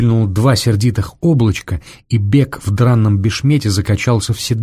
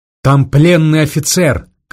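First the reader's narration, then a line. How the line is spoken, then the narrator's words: Shouted after them. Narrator (Russian): крикнул им вслед волонтер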